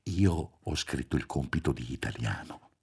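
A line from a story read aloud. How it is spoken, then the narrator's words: Murmured. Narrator (Italian): mormorò Roberto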